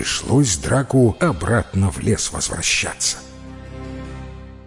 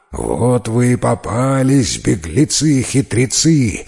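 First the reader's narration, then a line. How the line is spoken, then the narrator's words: Growled. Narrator (Russian): зарычал драк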